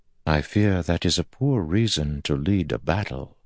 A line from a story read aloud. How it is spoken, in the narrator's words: Moraine said softly